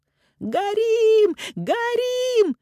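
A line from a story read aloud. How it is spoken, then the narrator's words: Woman shouting in alarm. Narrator (Russian): кричал женский голос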